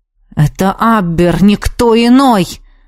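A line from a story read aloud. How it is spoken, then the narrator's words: Hissing through teeth. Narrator (Russian): сквозь зубы прошипел магистр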